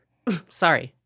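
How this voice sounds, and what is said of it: Imitated sneeze with apology. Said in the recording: “can you do an impersonation of Becca sneezing and try to be as inflammatory as possible ... That was pretty accurate.”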